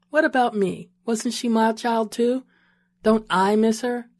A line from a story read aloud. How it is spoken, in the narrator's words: she asked